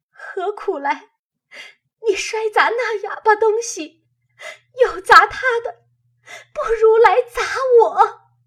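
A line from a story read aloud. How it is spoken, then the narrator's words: Crying. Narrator (Chinese): 黛玉 早已哭起来，说道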